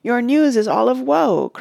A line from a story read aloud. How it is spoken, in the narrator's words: cried Éomer in dismay